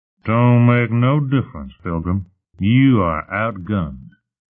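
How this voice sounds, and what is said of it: Heavy Western drawl character voice. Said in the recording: “The heavy Western accent coming from the Dreen”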